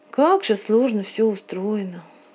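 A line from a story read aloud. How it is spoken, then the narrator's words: Sigh. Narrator (Russian): вздохнул я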